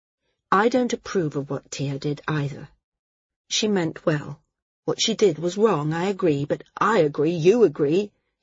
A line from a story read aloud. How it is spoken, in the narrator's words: he said, interrupting